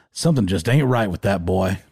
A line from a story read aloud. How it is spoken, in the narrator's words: like in the Hank Hill type voice